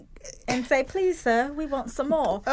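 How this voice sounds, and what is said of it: Put-on English accent. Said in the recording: “I did my best English accent. I really did.”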